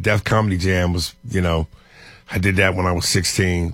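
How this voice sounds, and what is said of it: Strong New York accent. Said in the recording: “This man got a distinct voice. And that New York accent is strong. ... And the East Coast.”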